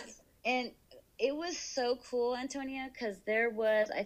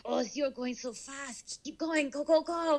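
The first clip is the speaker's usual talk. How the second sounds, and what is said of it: Put-on German accent. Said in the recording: “Is it a German accent? ... Yes.”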